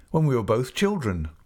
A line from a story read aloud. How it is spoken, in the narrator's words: I returned eagerly